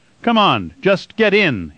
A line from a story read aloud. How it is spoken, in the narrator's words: he shouted